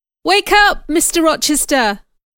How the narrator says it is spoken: cried

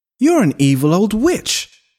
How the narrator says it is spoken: shouted at her

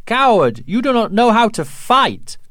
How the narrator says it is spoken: an old woman shouted

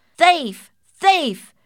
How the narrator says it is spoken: shouted the bandicoots

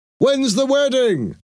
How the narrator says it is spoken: Someone in the street shouted

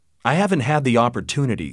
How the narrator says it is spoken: said Richard

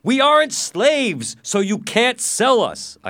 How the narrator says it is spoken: shouted

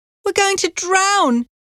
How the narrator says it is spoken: she cried

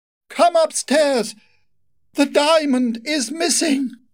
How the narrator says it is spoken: she screamed

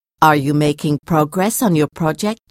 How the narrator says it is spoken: she asked

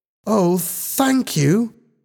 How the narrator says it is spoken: Helen exclaimed happily

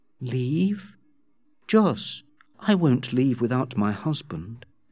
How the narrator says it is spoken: calmly said

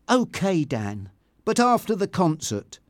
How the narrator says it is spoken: said Tanya firmly

